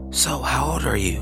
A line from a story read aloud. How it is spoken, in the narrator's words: a man ask in a small voice, almost whispering